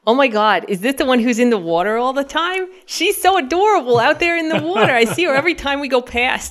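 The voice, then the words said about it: Put-on Long Island accent. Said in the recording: “She had this great Long Island accent... I can sometimes do a good Long Island... That was pretty good... it sounded pretty regionally pretty close”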